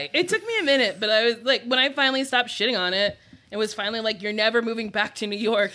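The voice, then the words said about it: New Jersey accent. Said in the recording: “New Jersey ... Hear the trash in my voice. Jersey girl.”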